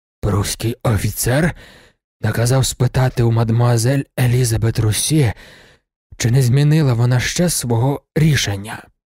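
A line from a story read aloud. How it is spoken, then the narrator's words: Hoarse rasp. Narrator (Ukrainian): пан Фоланві й прохрипів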